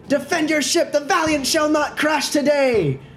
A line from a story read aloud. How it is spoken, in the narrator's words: I'm gonna shout at him